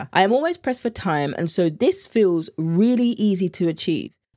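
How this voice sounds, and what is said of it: British accent. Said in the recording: “accent is everything ... the British accent in me”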